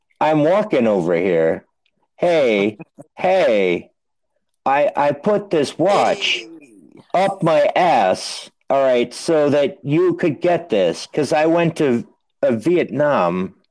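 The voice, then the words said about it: Christopher Walken impression. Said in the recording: “I can do Christopher Walken.”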